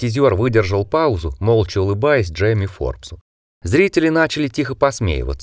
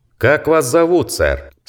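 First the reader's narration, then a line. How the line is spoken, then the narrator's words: Loud question. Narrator (Russian): спросил гипнотизер громким голосом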